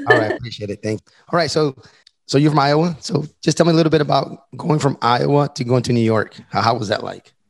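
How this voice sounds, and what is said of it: Slightly strained, worn-out voice. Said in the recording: “my voice is a little shot”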